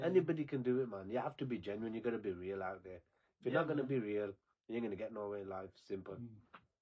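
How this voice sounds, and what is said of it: Strong regional accent. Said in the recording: “The accent does give you that little additional bonus. ... he said, you need elocution.”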